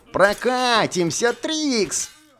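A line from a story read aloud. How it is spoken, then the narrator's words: Cheerful shout. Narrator (Russian): весело крикнул Бальтазар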